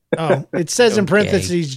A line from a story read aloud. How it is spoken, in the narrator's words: John laughs